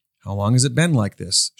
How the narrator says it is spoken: she asked

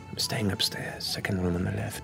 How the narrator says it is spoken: into your ear, as she whispers

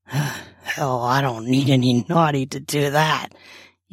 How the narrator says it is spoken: he says with a chuckle

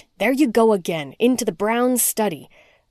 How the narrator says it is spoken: he scowled and snapped

